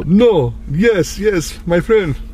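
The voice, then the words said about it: Put-on foreign accent. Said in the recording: “I should have talked to her with an accent... That's my accent right there.”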